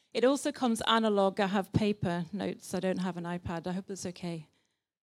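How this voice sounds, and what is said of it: British English accent. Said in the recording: “this morning's preach comes in British English today.”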